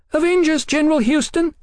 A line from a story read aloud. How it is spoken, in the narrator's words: Sybil shrieked, her throat constricted with stage fright